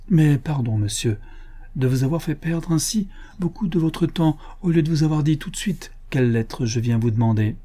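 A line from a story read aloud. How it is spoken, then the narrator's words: Sighing. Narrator (French): elle reprit, en soupirant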